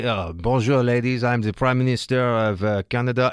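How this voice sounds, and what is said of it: Put-on French accent. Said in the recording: “This guy with the French accent”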